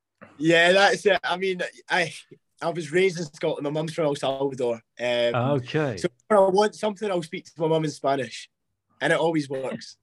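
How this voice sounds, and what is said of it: Scottish accent. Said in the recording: “I was picking up on a Scottish accent.”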